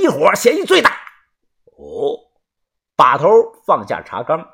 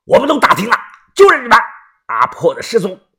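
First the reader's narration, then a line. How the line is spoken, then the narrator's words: Agitated, stern. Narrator (Chinese): 一男的神情激动……厉声的说道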